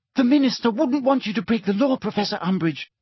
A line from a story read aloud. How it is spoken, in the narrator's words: cried Hermione